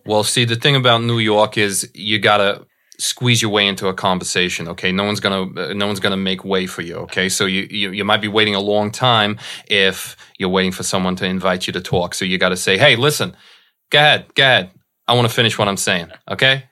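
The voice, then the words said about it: Put-on New York accent. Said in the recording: “I love hearing you do a New York accent. Can you please do a little bit of a New York accent?”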